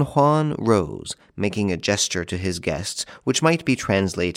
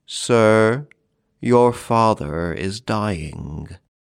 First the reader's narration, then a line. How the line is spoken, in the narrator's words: saying, in a hollow voice, the solemn words